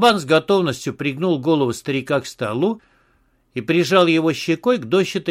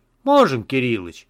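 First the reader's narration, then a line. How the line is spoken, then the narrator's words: Cheerful. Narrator (Russian): весело сказал Платон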